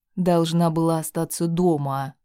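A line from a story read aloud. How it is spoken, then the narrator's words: Man's growl. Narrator (Russian): прорычал мужчина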